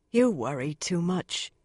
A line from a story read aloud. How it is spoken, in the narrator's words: Swan said gently